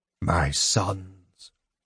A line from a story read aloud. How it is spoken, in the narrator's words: the Speaker said brokenly